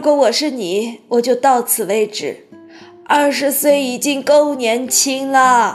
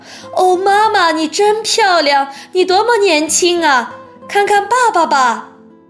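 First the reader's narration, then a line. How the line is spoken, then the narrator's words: Calling out. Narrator (Chinese): 巴克特太太对乔治的姥姥叫道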